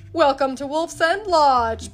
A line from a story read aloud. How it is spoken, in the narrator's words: bellowed the innkeeper, Mr